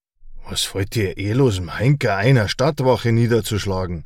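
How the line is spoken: Dazed growl. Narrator (German): knurrte Brandner, noch immer vom Schlag leicht benebelt

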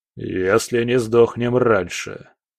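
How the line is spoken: Gloomy comment. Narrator (Russian): мрачно прокомментировал командор

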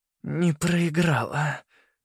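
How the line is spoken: Hoarse, smiling. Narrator (Russian): говорила Селеста хрипло, с улыбкой, словно не было никаких ран

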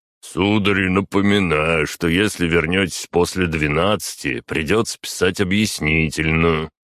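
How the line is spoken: Guard's lecturing tone. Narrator (Russian): менторским тоном проговорил один из охранников

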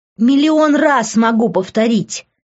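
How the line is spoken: Hurt shout. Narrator (Russian): закричала я от обиды внутри

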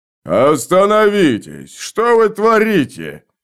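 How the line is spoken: Deep bass voice. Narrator (Russian): пробасил молчавший до сего момента Кок

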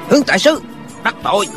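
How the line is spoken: Shout. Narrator (Vietnamese): Một tên hán tử quát lên

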